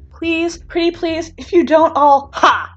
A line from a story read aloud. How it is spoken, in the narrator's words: Bakugo shouts